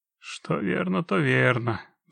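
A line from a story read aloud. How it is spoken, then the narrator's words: Sighing. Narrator (Russian): вздохнул Геральт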